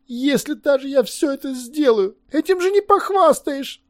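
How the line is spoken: Moaning. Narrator (Russian): простонал Левелес

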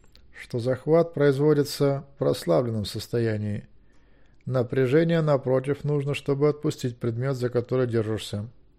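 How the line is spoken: Even tone. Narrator (Russian): ровным тоном сказал Змейк

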